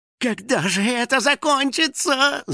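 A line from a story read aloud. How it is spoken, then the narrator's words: Whining. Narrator (Russian): захныкал домовой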